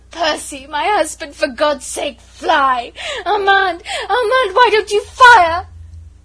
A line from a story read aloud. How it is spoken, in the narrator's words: moaning, bruised, not caring, but still half-sobbing, half-shrieking